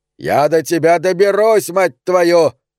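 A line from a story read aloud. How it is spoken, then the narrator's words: Roaring. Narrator (Russian): взревел фермер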